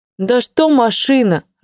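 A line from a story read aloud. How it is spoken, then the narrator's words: Irritated. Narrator (Russian): раздраженно произнесла Ленка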